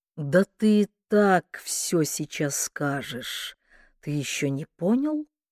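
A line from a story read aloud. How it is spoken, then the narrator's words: Quiet question. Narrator (Russian): тихо спросил Кордовин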